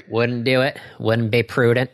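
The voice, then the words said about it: Dana Carvey's George H.W. Bush impression. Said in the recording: “doing a Dana Carvey impression of him doing an impression of George H.W. Bush”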